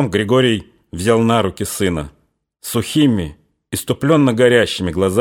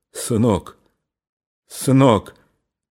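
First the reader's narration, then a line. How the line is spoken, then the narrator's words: Choked, repeating. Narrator (Russian): он сдавленным голосом твердил только одно слово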